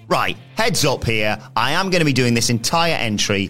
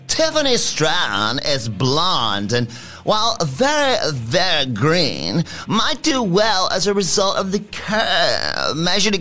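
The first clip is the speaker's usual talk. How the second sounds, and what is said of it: Impression of Tiffany Stratton. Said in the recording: “in my Tiffany Stratton voice”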